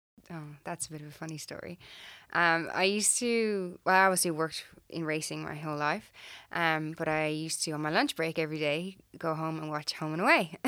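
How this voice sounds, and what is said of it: Irish accent. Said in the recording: “Originally from Ireland... People tell me I still haven't lost my accent.”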